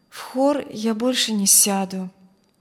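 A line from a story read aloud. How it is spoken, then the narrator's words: Sad, soft. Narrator (Russian): грустно промолвила Алевтина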